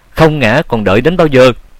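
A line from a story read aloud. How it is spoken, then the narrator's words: Shout. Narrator (Vietnamese): Tiếng hét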